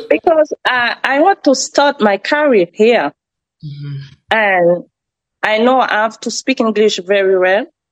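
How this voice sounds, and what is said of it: French accent. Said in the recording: “like a native, with my accent ... I'm Frenchy”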